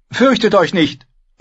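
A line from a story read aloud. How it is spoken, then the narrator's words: Called out. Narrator (German): rief sie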